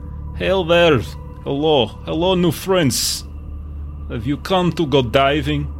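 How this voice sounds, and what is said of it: Garbled light Russian accent. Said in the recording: “a little bit of a Russian accent there. Kind of garbled.”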